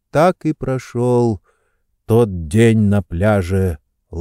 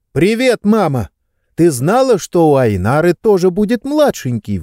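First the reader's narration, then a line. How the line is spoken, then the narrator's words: Exclaiming. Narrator (Russian): воскликнул я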